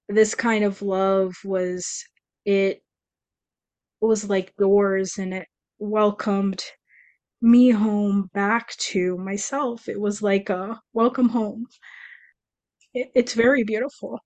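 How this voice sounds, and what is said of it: Emotional, moved voice. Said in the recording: “I'm getting emotional. No, you know what? I'm not sorry, I'm getting emotional.”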